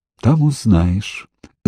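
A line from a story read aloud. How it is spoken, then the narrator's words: Conspiratorial whisper. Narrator (Russian): заговорщицки шепнула Ирина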